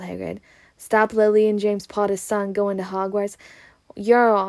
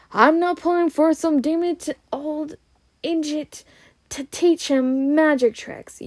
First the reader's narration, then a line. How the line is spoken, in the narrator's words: yelled Uncle Vernon